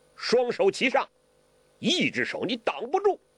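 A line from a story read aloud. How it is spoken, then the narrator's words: Shouting mid-fight. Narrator (Chinese): 黄药师嘴里还叫呢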